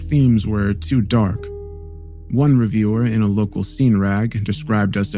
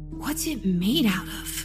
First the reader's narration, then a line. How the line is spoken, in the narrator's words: Leslie whispered